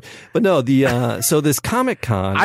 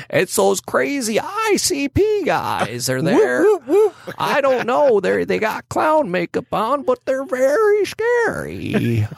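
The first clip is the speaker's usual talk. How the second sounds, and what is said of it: Put-on old man voice. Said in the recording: “I have no idea what voice I'm doing or why I'm doing it. I was trying to do, it's like my old man voice.”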